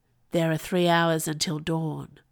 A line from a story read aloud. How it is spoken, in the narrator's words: Poet says, in the softest voice